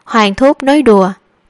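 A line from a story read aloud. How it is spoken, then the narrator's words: Faint cold smile. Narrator (Vietnamese): U Cầm Ca cười nhạt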